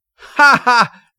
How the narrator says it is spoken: the undergraduates laughed

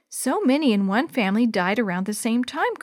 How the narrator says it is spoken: Chris said

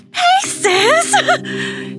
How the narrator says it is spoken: she immediately called out

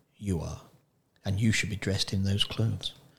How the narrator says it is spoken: Roscuro whispered into Mig's ear

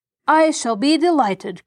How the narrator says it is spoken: cried Mr

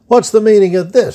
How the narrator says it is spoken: shouted one of the upperclassmen

